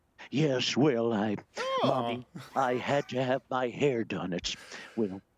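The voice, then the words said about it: Ronald Reagan impression. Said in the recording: “how's your Reagan impression? ... That's actually better than Rich Little and not as sad.”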